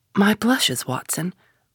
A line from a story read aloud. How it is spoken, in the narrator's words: Holmes murmured in a deprecating voice